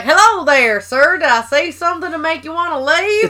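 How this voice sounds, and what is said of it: Put-on Texan accent. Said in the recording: “It's a very Texan accent. ... it doesn't sound Floridian by any means. It doesn't sound Southern. ... It sounds very Texan.”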